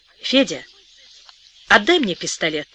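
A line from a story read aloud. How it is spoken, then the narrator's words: Calm. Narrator (Russian): спокойно сказала Вера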